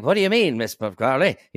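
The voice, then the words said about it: 1930s radio transatlantic voice. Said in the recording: “a little transatlantic accent ... I did the kind of like radio thing ... that little voice in that sounds like 30s radio or something”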